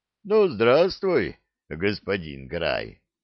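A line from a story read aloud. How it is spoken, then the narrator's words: Deep bass voice. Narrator (Russian): пробасил Бжигунь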